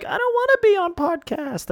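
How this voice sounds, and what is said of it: Imitates another person's voice. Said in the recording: “my Alphabet Pizza impression ... That's a great impression ... such a spot on impression”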